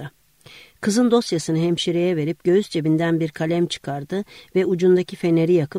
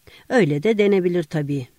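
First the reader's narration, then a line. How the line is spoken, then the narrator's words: Young doctor laughing. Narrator (Turkish): diyerek güldü genç doktor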